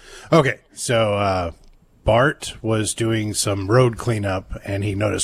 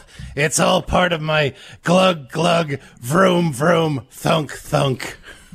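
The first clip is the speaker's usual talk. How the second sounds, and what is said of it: Krusty the Clown impression. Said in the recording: “I do an impression? ... That was a very good impression”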